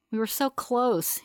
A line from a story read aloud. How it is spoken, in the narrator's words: he says, his voice heavy with regret